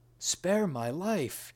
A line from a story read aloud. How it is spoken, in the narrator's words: cried